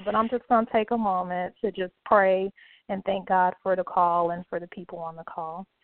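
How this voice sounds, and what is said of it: Hoarse voice. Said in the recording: “I'm a little bit hoarse”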